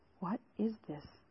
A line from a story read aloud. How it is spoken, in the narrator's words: I whispered